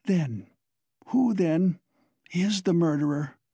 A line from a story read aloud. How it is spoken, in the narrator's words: he asked in a breathless voice, unable to restrain himself